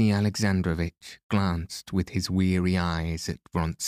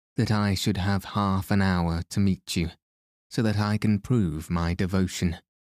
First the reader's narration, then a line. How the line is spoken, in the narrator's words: went on in the same jesting tone